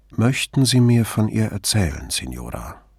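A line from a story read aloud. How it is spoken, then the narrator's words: Calm request. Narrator (German): bat Brunetti sie ruhig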